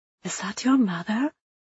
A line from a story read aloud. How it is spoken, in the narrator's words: Liesl whispered